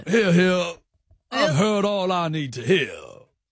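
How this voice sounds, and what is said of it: Put-on American detective-style voice. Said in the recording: “Judge Judgey was American in the intro. I wonder if I bring that a bit ... you sound like a detective character”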